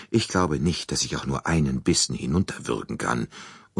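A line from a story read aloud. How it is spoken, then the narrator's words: Murmured. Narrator (German): murmelte sie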